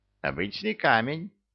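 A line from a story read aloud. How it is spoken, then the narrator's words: Amused snort. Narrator (Russian): Хмыкнул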